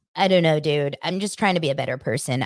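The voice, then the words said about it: Imitates another person's voice. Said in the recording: “Should I do a Tom Sandoval voice?”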